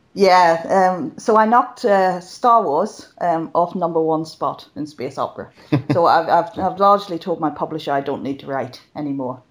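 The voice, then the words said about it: Irish accent. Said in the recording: “the Irish accent”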